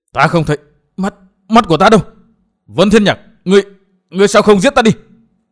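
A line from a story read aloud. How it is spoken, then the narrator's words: Despairing hiss. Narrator (Vietnamese): Rút rời tuyệt vọng, Chu Kiếm Thanh rít lên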